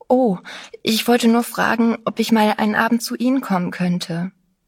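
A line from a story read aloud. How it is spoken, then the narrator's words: Breathless. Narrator (German): sagte ganz atemlos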